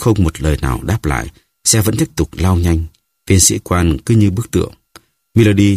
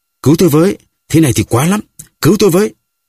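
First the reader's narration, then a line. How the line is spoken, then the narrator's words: Loud cry for help. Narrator (Vietnamese): Melody lại lớn tiếng kêu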